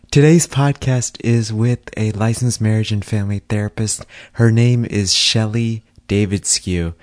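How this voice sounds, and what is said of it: Strained voice, deeper than usual. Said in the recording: “sorry about my voice... my voice is a little bit more bassy than usual”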